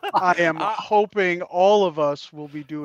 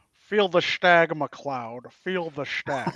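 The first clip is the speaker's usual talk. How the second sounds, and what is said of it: Sean Connery impression. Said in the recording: “doing our best / worst Connery imitations ... that accent”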